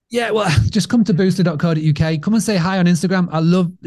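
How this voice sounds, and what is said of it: British accent. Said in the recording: “this British accent”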